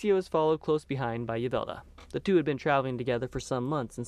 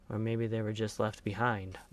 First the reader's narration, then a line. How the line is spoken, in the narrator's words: Bob muttered